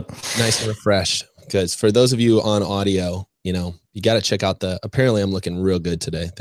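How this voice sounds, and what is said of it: Hoarse, recovering voice. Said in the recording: “my voice is a little funky today. I basically lost my voice the last couple of days, so it's slowly coming back.”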